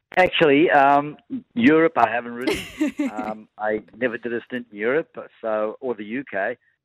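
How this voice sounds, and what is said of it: South African accent. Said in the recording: “South Africa, where you're from, as we can tell from your accent”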